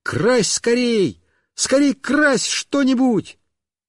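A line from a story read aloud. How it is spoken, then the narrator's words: Joyful shout. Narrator (Russian): Мишка обрадовался и как закричит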